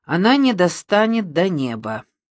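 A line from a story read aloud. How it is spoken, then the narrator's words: Plain. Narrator (Russian): сказал Демиург Мазукта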